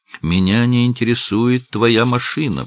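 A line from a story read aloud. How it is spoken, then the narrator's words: Shouted. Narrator (Russian): прокричала Кэрол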